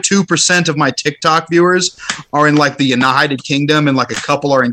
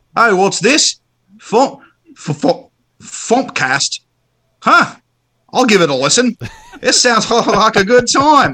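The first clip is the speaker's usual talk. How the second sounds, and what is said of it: Poor attempt at Australian accent. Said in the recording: “I'm not good at accents. Because that was well, Australian, like, not New Zealand.”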